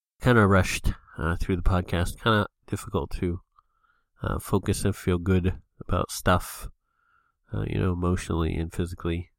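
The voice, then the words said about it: Sick, congested, breathless voice. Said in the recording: “I am pretty sick feeling, again, you can probably hear it in my voice ... I'm basically kind of gasping for breath at the moment ... heavy allergies, so a lot of congestion and sneezing”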